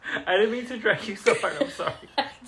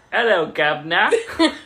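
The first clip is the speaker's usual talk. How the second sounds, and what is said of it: Unconvincing put-on British accent. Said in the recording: “That's my British accent. ... That's British?”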